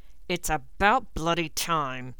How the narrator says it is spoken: Snape growled

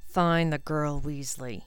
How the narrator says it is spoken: he muttered to Crabbe and Goyle

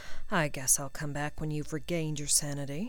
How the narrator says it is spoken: muttered Draco

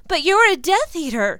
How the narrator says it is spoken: Jenny wails

